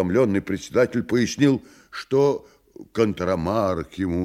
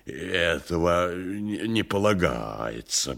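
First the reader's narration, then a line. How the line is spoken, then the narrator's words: Muttering. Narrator (Russian): бормотал он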